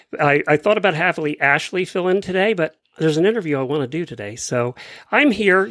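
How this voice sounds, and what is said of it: Weak, fading voice from a cough. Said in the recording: “I got a cough over the weekend, and I'm pretty much basically losing my voice ... my weak-sounding voice”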